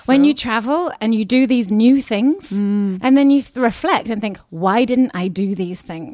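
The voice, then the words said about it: London accent. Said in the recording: “you can tell I've got a European, mine's a London accent”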